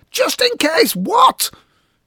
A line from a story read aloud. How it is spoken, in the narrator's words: screeched